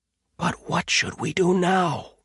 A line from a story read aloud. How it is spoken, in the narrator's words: He whispered